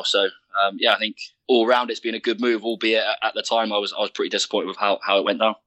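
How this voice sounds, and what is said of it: Southwest English accent. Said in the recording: “I can hear the twang ... I'm still very much Southwest England in the way I speak”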